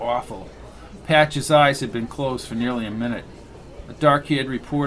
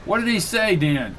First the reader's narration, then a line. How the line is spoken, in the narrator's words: Somebody shouted in back